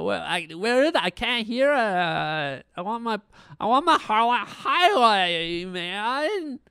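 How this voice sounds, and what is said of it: Annoying character voice. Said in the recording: “annoying character voice”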